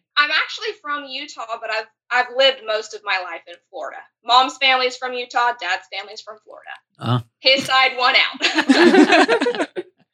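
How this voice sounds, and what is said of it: Slight regional accent. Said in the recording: “I am picking up a little bit of an accent from you.”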